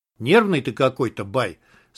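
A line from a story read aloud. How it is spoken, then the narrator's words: Calm. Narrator (Russian): спокойно сказал Журавлев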